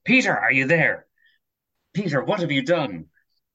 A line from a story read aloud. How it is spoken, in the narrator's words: shouts